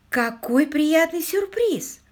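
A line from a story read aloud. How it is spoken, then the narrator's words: Delighted exclamation. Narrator (Russian): воскликнула Полли, узнав, что они обедают в ресторане гостиницы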